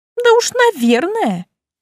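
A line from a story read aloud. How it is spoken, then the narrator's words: Giggling. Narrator (Russian): хихикнула Машка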